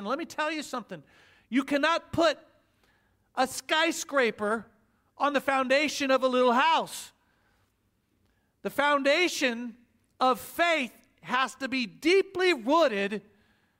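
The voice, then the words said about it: Oklahoma accent. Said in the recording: “There's my Oklahoma accent”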